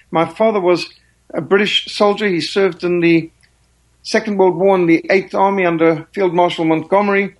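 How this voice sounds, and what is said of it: Rhodesian southern African English accent. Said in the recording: “I detect an accent in your voice ... my accent is actually more Rhodesian than South African”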